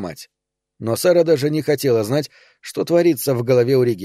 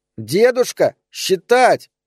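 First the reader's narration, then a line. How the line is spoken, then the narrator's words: Shout. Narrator (Russian): кричала Эльза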